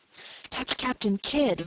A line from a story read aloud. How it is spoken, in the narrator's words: whispered Abner to his wife